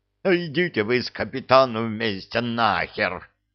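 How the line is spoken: Furious growl, big man. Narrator (Russian): прорычал в ответ верзила, яростно сверкая глазами

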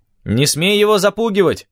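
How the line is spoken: Shout after someone. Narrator (Russian): крикнул вслед

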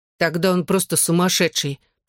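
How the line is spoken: Grumbling. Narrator (Russian): проворчала Клэр

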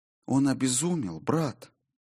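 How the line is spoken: Whispered. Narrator (Russian): прошептала Саллей

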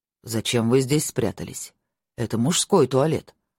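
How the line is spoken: Stern. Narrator (Russian): строго сказал один из них

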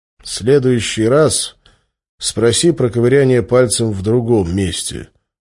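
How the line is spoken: Gloomy reply. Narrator (Russian): мрачно ответил

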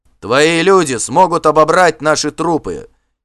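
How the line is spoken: Defiant shout. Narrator (Russian): крикнул Вигмар с вызовом

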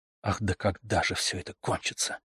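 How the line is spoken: Impatient mutter. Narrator (Russian): пробормотал Митя вне себя от нетерпения

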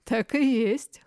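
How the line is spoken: Chuckling. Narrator (Russian): хохотнул краснорогий Рогрих

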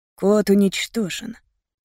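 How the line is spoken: Calm. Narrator (Russian): спокойно сказал папа

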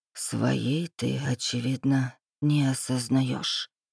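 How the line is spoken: Whispered. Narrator (Russian): прошептал дракон

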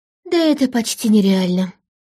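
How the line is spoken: Sighing. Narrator (Russian): вздохнула подруга

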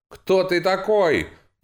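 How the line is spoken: Angry shout. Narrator (Russian): гневно выкрикнул князь

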